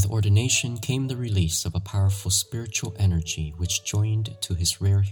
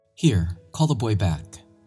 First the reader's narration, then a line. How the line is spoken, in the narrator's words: cried Don Bosco